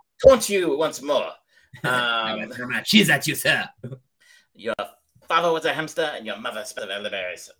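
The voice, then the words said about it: Exaggerated, poor French accent. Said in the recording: “a French accent, like an outrageous French accent ... it's not a good accent”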